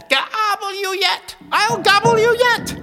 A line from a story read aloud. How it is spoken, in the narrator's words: her cackle